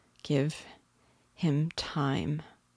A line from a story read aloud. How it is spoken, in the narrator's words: she said slowly